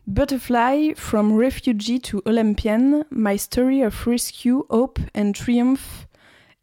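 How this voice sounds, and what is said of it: Accented English pronunciation. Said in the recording (French): “Je vous interdis de vous moquer de mon accent euh, parfait”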